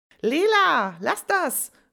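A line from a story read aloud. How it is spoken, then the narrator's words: Calling out. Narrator (German): ruft Jojo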